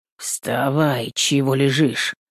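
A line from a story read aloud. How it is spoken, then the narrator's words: Familiar voice grumbling. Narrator (Russian): пробурчал знакомый голос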